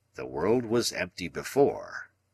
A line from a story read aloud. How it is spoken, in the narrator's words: Challenger answered gravely